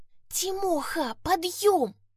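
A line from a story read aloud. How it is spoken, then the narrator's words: Urgent whisper. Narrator (Russian): зашептала она изо всех сил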